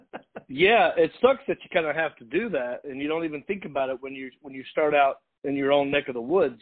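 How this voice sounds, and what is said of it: Strong Southern US accent. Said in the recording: “that strong Southern accent ... I didn't even know I had an accent until I left North Carolina”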